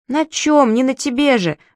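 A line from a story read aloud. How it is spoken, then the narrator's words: Exclamation. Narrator (Russian): воскликнул Сири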